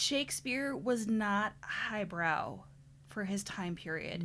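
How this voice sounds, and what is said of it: Usual voice. Nothing is said of it.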